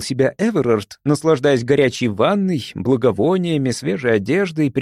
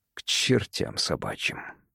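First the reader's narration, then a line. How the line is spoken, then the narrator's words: Muttered. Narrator (Russian): пробормотал Эверард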